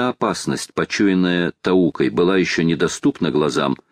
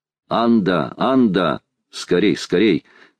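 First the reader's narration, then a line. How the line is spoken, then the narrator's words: Thunderous shout. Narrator (Russian): крикнул громовым голосом Талькав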